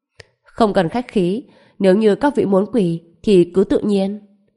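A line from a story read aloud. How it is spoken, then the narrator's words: Cold mocking speech. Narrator (Vietnamese): Trần Bình cười nhạt, nói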